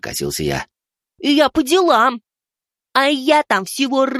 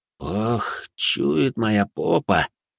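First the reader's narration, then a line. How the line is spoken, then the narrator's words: Sigh. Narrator (Russian): вздохнул я тогда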